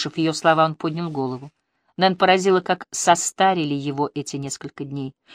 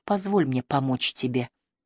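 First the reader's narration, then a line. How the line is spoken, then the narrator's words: Murmur. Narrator (Russian): пробормотала она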